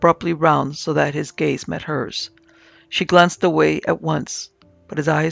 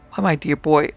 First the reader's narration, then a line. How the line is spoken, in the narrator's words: said, laughing